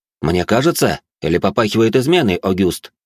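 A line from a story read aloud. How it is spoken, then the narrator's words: Plain. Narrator (Russian): спросил я шалена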